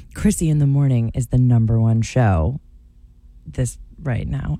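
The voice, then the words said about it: Attempted sultry sexy voice. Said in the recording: “In your sexy ... voice... Well, that's not sexy.”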